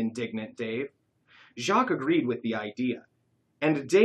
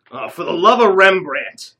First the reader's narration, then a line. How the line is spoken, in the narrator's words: exclaimed Jacques, throwing his hands up in despair